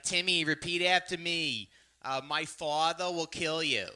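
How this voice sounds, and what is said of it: Imitated thick Staten Island accent. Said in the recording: “they're from Staten Island ... how do they let you work with children with that accent?”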